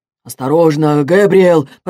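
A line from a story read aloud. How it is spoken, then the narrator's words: Man grumbling after collision. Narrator (Russian): проворчал другой мужчина, столкнувшись с ним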